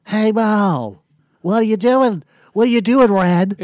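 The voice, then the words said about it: Imitates another person's voice. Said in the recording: “if you can do Larry Fine ... It's like that stupid Joe Carr guy voice I do. It's almost very similar to that.”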